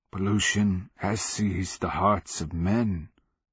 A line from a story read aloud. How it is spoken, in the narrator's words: the slave rasped